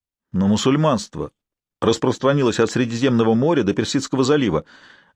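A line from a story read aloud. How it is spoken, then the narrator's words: Bewildered exclamation. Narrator (Russian): растерянно воскликнул Норман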